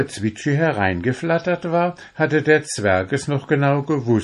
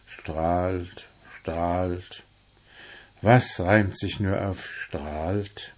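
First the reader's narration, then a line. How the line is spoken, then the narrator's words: Repeated muttering to himself. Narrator (German): immer wieder murmelte vor sich hin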